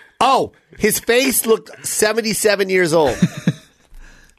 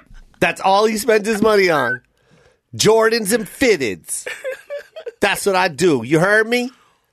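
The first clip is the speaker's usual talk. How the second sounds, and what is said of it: Imitates another person's voice. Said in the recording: “We're actually not even doing a good impersonation.”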